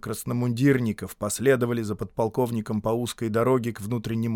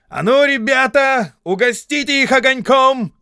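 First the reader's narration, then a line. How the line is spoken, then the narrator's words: Officer's shouted command. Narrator (Russian): крикнул собравшимся у рва какой-то офицер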